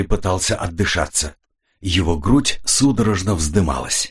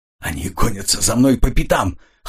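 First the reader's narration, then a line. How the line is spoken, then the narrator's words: Hoarse, strained. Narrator (Russian): хрипло выдавил Ренли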